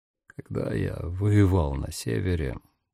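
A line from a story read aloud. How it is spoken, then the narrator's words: Quiet and hoarse. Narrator (Russian): наконец заговорил Дамиан тихим хриплым голосом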